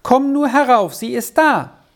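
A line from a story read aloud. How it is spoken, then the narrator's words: Calling down the stairs. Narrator (German): rief die Treppe hinunter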